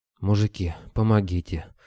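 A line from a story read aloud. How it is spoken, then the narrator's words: Breathless gasp. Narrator (Russian): выдохнул он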